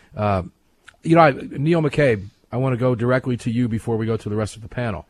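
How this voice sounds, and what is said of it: Slightly worn-out voice. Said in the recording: “my voice is a little bit shot”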